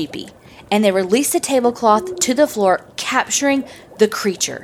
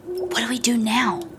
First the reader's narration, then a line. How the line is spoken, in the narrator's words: whispered Heepy